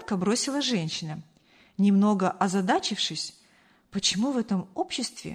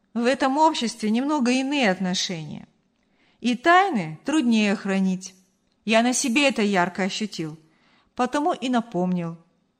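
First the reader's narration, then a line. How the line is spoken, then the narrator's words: Conciliatory explanation. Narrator (Russian): примирительным тоном пояснил Артур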